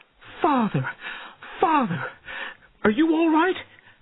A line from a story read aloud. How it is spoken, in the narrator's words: she cried